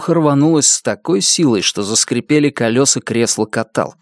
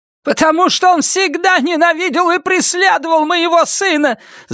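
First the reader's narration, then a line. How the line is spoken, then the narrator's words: Shout. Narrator (Russian): закричала бабушка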